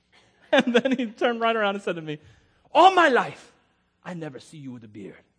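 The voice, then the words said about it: Imitated thick African accent. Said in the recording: “from somewhere in Africa. So he's got a thick accent.”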